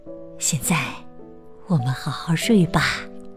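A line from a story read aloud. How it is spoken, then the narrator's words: Soft. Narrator (Chinese): 巴蒂轻声说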